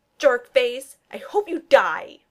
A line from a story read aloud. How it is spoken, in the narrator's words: Barton screams